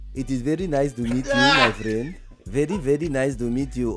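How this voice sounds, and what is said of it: Put-on foreign accent. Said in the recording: “I have an accent, all kind of thing.”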